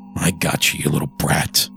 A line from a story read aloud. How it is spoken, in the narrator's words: I growled under my breath